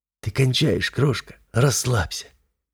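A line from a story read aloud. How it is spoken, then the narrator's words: Hoarse laughter. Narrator (Russian): Хрипло смеясь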